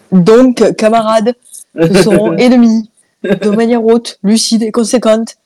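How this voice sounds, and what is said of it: Put-on southern French accent. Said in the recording (French): “en accent du sud”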